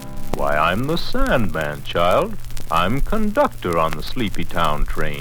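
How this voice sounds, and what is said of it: Funny character voice. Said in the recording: “Oh, what a funny voice.”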